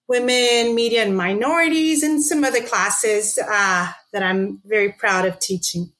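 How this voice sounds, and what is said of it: Brazilian accent. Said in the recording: “I'm from São Paulo, Brazil. That's that accent... it's not a South Texas accent”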